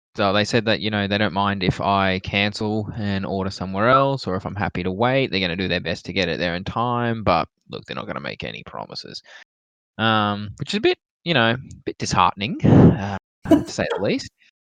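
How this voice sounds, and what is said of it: Sad, dejected voice. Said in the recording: “You sound so sad.”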